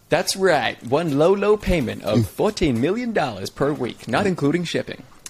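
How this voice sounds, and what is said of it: Put-on American infomercial accent. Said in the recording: “That's American accent. It's interesting. ... I didn't even know what I was channeling with that accent,”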